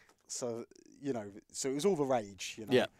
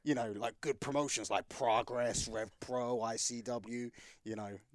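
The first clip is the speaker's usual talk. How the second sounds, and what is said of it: Impression of Triple H. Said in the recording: “who are you doing an impression of? William Regal? ... I guess Triple H.”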